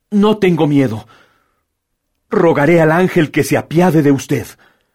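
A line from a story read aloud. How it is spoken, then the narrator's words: Girl exclaiming firmly. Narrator (Spanish): la muchacha se irguió muy pálida, con un extraño fulgor en los ojos, exclamando con voz firme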